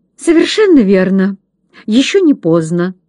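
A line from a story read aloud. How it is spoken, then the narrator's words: Stern agitated father. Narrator (Russian): сурово и взволнованно произнес отец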